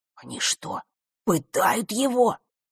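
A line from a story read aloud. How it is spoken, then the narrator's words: Barely audible whisper. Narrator (Russian): еле слышно прошептал Жаба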